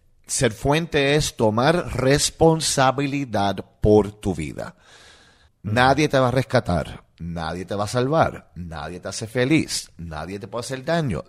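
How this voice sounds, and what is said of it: Puerto Rican Spanish accent. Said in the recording (Spanish): “como hay acento puertorriqueño”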